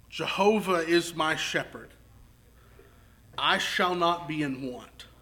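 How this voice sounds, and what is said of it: Slow, deliberate reading. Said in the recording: “I'm going to read it slowly.”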